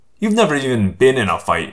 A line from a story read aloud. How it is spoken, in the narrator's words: Marco sneered